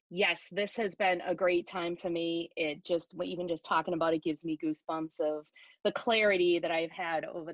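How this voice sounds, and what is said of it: Massachusetts accent. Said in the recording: “she's from Massachusetts and has an amazing accent ... I get a lot of slack from you guys in the Midwest over that”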